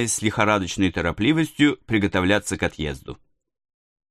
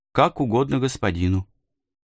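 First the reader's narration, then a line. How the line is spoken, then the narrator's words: Calm. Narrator (Russian): ответил он спокойно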